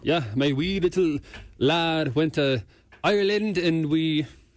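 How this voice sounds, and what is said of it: Put-on Irish accent. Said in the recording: “I've heard you do your Irish accent before... And it's good.”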